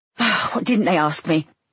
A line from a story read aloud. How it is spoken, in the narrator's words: He sighed